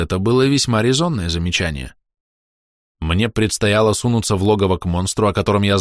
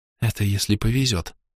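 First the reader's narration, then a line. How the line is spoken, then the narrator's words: Quiet young woman. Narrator (Russian): негромко ответила девушка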